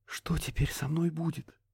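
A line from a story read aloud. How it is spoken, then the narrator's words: Muffled whisper. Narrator (Russian): прошептала ему в грудь Несса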